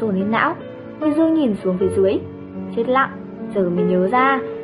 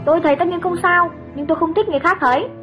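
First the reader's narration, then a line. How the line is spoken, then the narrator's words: Irritated snapping. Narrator (Vietnamese): Cậu bực quát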